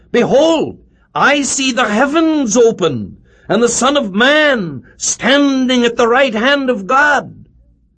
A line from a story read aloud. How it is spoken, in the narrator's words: I cried out